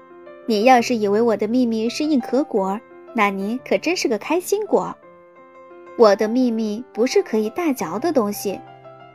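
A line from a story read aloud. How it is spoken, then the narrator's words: Smiling, patient explanation. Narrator (Chinese): 棕熊笑着，耐心地解释道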